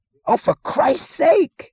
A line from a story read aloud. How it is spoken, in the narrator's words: he screamed